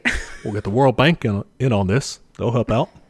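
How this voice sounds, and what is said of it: Barack Obama impression. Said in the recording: “good your Obama impression”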